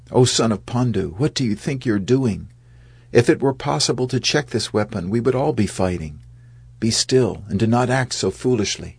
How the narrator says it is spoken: In an urgent voice, Krishna said

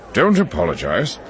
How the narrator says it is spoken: Ylarin said with a grunt

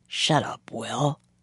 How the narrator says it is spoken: he muttered

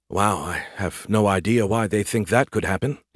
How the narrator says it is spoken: he muttered

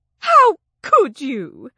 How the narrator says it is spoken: Sylvia wailed at Langley

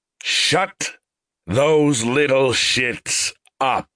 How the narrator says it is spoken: Shovel commanded in a sonorous voice

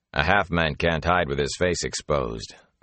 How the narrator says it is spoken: the warder said in a flat voice

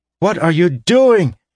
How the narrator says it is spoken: He shouted above the shrieking

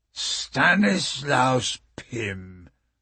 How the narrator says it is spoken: the man sneered

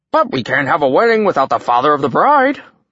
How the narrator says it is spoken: Thrym announced cheerfully

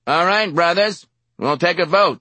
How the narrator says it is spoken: the chairman shouted

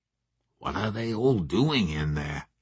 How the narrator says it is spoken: he asked me in a whisper

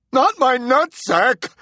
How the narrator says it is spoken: wailed the Sandman

